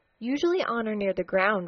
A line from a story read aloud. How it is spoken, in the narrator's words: replied Dotty